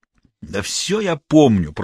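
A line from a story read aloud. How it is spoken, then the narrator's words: Grumbling. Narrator (Russian): проворчал Дементьев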